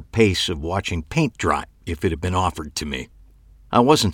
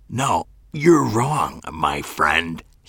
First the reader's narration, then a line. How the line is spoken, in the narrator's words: hissed